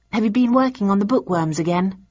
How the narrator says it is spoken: I asked

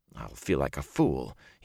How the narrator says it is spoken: muttered

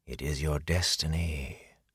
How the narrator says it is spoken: a voice whispered in his head

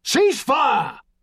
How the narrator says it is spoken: Harris Fisher shouted

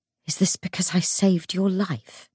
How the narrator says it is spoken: He whispered

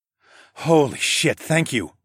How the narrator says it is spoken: gasped

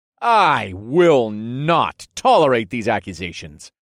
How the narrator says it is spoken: I exclaimed in a fake, offended voice

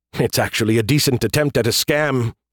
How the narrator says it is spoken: he chuckled

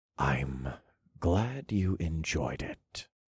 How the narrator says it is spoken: I whispered

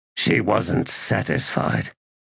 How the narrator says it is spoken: he muttered

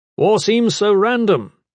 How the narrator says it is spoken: Gavin shouted

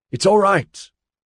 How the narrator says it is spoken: Ozzy shouted

